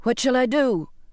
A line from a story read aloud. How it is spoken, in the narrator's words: I shouted to his back